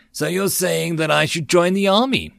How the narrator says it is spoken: He asked me excitedly

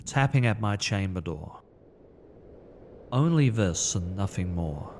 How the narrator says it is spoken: muttered

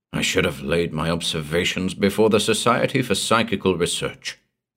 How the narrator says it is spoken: he muttered

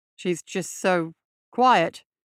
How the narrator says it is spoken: Hall mumbled

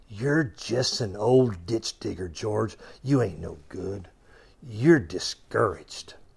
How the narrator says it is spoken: he started to whisper in his ear

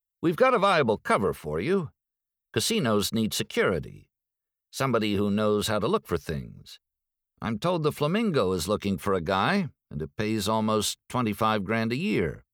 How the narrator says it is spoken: Cartwright said

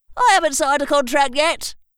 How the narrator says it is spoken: yelled someone from the crowd

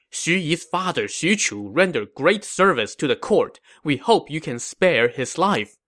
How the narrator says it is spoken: His officers all pleaded with him, saying

